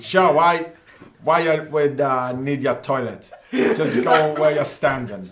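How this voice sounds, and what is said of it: Attempted Dundalk Irish accent. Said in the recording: “In a Dundalk accent, can you say that? ... In a Dundalk accent? ... Mikey has a Dundalk accent.”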